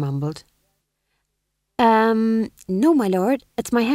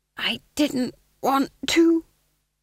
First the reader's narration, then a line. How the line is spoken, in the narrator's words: he hissed conspiratorially